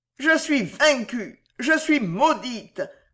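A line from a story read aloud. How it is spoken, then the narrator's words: Growled. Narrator (French): gronda Fausta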